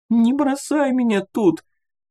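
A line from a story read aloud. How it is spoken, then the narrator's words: Thin squeak, near tears. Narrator (Russian): тоненько пропищала девушка на грани плача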